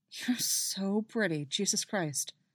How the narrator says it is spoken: he mutters, and he's only half aware that he says it

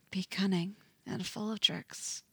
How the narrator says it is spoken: Eddie whispers

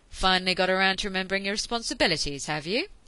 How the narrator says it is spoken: he said sharply

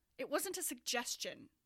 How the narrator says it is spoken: Browning snapped

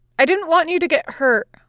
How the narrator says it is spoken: Luffy blurts

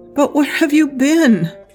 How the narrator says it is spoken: Zhao Yunlan pleaded

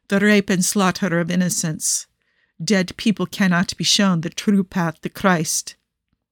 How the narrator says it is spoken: Niccolò stated solemnly

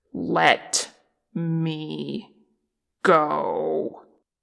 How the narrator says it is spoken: Che growled, low and deadly

